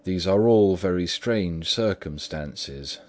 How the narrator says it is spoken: said Mr

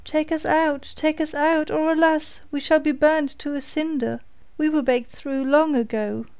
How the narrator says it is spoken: cried the loaves as before

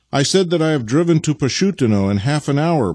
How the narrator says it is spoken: bawled Vasily

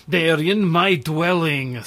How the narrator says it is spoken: snapped Kwytoffl

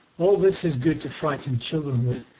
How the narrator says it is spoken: he said

